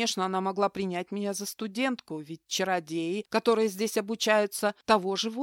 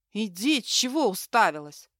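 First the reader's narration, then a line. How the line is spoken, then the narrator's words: Through gritted teeth. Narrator (Russian): процедила она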